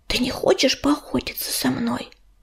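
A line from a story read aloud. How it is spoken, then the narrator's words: Whisper. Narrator (Russian): прошептал оруженосец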